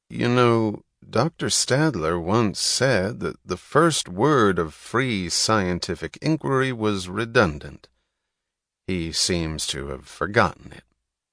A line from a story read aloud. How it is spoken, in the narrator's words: he answered in his even, unhurried drawl